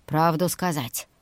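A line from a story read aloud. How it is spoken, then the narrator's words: Gloomy suggestion. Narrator (Russian): мрачно предложил Хью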